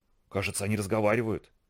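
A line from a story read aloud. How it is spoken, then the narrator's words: Entranced whisper. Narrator (Russian): завороженно прошептал Вайк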